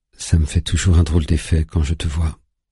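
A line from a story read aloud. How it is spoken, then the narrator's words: Timid voice. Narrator (French): dit Valeria d'une voix timide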